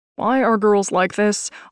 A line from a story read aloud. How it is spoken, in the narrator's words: Austin moaned